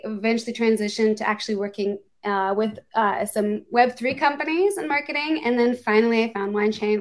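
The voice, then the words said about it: American accent. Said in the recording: “I'm American. You can probably tell from the accent”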